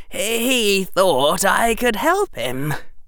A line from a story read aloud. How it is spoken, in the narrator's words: Harry said, his voice hoarse